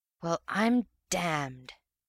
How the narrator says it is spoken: whispered the real man

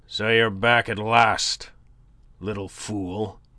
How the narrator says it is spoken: growled in greeting

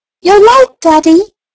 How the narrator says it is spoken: a boy's voice cried

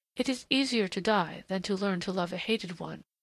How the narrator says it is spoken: she reminded him softly

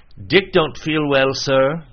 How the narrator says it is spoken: said one

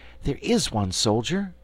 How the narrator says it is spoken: exclaimed Dorothy

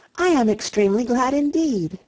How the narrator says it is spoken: cried Anne

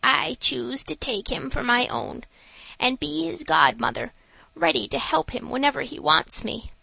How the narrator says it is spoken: this she said in a mysterious whisper

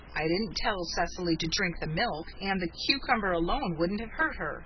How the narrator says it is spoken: he grumbled

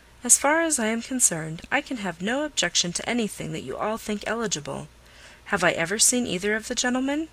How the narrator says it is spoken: After a moment's thought, Miss Crawford calmly replied

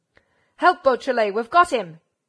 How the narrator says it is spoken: Ganimard bellowed

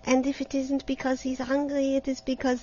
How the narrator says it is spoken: she continued nervously

